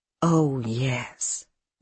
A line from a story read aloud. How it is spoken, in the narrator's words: Nora said in her low, musical voice